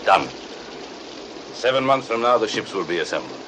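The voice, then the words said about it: Foreign accent, subtle villainous voice. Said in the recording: “you can hear that accent ... It could be perfect for villainy ... very good English ... what an interesting, subtle voice he had ... all foreigners are sinister”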